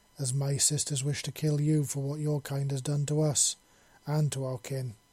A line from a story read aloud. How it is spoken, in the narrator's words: the other queen said in a rather calm voice